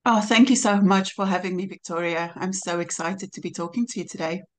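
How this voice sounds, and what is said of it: South African accent mixed with British. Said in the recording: “we love your accent already ... it's a bit of a mix, really, because I was born and raised in South Africa, but I live in the UK ... it's a mix of English and”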